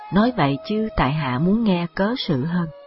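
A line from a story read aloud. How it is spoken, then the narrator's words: Smiling. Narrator (Vietnamese): Diệp Khai mỉm cười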